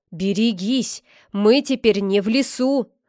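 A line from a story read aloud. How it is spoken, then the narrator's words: Menacing hiss. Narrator (Russian): угрожающе прошипел лесничий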